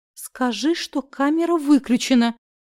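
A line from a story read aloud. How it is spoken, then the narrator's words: Deflated moan. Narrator (Russian): простонала я, тут же теряя боевой задор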